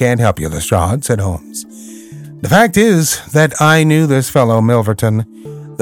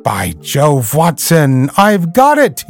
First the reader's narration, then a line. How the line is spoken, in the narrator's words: he cried